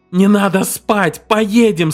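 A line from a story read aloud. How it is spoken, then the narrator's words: Terrible shouting. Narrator (Russian): страшно кричал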